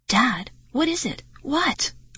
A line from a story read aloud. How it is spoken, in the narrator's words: I cried